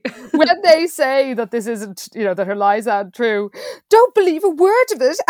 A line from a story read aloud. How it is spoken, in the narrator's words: Annie Sue cried